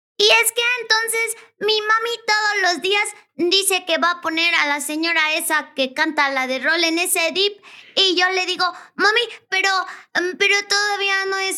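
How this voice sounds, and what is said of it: Child's voice. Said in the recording (Spanish): “algo como de voz de niño. Algo con voz de niño ... O mejor te hablo como niño ... háblame como niño”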